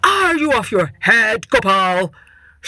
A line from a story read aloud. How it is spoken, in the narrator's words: shouted the Maharaja